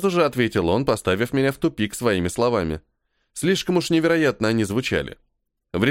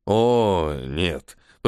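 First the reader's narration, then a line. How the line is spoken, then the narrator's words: Drawl. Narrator (Russian): протянул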